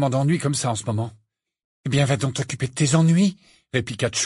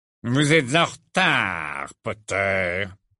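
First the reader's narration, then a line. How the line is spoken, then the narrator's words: Icy. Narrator (French): dit Rogue d'une voix glaciale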